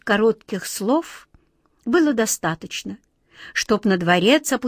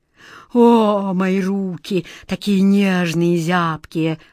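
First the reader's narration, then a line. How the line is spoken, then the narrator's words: Moaning. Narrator (Russian): простонал король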